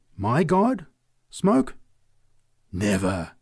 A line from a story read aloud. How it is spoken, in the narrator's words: she cried